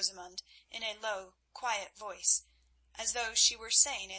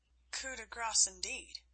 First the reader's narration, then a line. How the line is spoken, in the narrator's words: muttered Wolf